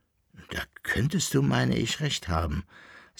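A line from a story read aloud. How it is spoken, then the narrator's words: Thoughtful, relieved sigh. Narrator (German): sagte nachdenklich und mit einem tiefen Seufzer der Erleichterung der Koppelbär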